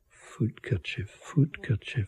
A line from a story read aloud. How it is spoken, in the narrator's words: I mumbled into her ear